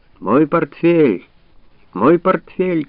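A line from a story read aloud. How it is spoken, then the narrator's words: Shouting. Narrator (Russian): кричал граф Дильон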